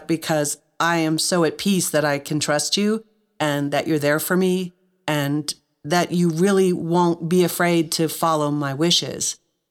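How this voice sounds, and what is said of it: Choked-up, emotional voice. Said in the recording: “I'm a little choked up, but I'm choked up”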